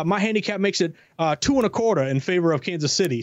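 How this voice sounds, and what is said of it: Poor Southern drawl impression. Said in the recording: “impersonation with the Southern drawl? A little bit. It was terrible”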